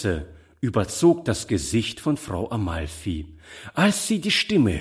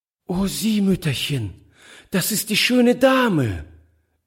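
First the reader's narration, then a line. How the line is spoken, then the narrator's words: Delighted call. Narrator (German): rief sie voll Entzücken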